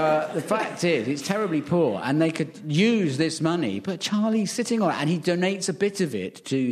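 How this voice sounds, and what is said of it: Usual voice. Nothing is said of it.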